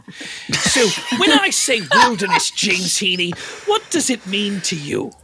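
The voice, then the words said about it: Put-on British accent, Bear Grylls. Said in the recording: “I just heard your accent... I'm clearly from Britain”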